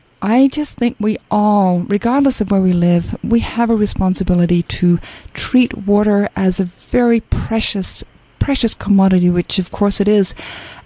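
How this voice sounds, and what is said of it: Australian accent. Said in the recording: “I'm an Aussie... my accent betrays me all the time”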